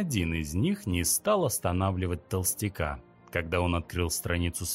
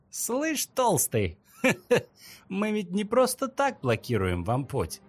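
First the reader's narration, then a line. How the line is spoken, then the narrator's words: Laughing. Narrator (Russian): рассмеялся Козлобородый в ответ на угрозу Толстяка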